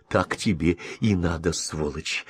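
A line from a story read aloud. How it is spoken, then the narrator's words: Whispered. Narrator (Russian): прошептала Мелисса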